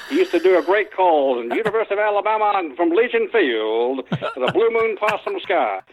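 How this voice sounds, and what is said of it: Imitates a sports broadcaster's voice. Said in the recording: “you do a pretty good impression of him, and that's a guy we've all heard, Keith Jackson ... that's awfully good.”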